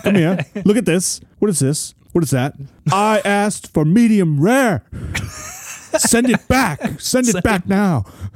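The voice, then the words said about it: Gordon Ramsay impression, odd accent. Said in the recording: “I don't know what accent that is... Gordon”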